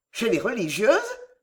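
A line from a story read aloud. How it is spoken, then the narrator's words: Exclaiming. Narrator (French): s'écria Bertie avec un mouvement de recul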